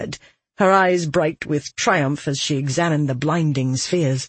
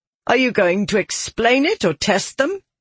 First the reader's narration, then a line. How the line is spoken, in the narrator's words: Maressa asked, her voice becoming impatient